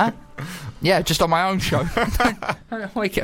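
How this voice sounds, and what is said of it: Usual voice. Nothing is said of it.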